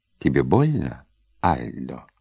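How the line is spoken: Calm question. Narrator (Russian): все так же спокойно спросила воспитательница

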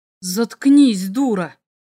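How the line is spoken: Hiss. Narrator (Russian): прошипел Лесик

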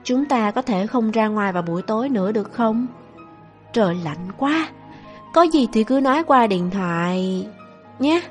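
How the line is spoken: Soft, awkward question. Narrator (Vietnamese): cô vẻ rất khó xử, khẽ hỏi

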